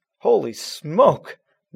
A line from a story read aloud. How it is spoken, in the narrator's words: Matt exclaimed